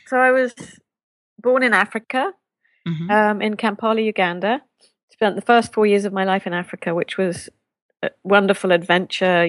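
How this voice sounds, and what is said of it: Speaks with a noticeable accent. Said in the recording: “I love your accent ... you would have an accent”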